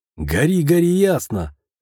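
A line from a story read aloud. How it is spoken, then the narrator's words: Smirking snort. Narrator (Russian): хмыкнул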